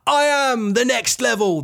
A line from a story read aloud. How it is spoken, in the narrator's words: Jaden Scar exclaims